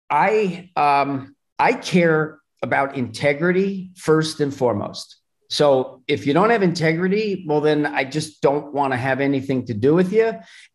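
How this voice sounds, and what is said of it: Slightly mixed New Jersey accent. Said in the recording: “I hear the accent now. There it is. ... my accent's a little bit different, but there is definitely Jersey in it.”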